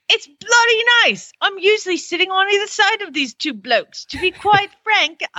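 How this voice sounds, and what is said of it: Weak attempt at Australian accent. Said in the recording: “I'll even do it in his accent... I can't do Australian, sorry.”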